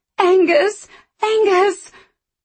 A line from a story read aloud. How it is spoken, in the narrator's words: screaming